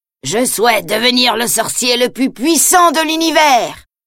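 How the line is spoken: Yelling. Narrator (French): hurle-t-il

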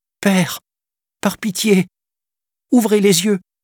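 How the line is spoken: Pleading young cub. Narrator (French): implorait le lionceau

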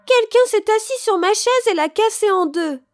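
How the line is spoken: Baby bear crying out, weeping. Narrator (French): s'écria bébé ours en pleurant

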